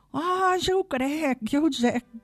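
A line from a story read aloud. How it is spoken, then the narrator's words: Fir tree exclaiming. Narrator (Catalan): va exclamar l'abet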